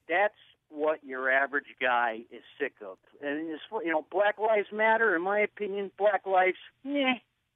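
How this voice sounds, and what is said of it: Exaggerated Trump supporter impersonation. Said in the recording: “you're doing an impersonation of a Trump supporter ... you even sound like you have his diction ... That's a fake Trump supporter.”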